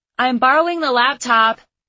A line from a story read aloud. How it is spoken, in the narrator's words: I called out to anyone who wanted to listen